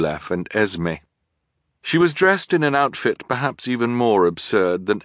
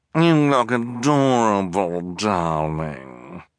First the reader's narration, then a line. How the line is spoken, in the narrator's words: purred Esme